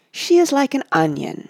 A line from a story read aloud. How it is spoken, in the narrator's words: he said dreamily